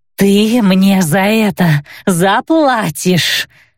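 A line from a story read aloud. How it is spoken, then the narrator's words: Indignant hiss. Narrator (Russian): возмущенно прошипела Сафра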